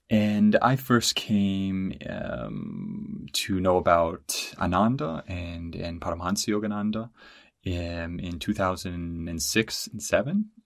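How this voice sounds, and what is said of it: American accent. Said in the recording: “I'm American, if you can't tell from my Yankee accent”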